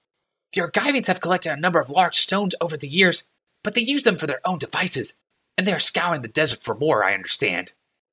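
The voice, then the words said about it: Meek, timid voice. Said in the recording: “spoke up in a meek voice”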